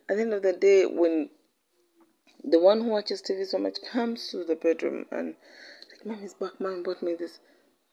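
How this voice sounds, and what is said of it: Congested, sick-sounding voice. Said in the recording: “I have a cold.”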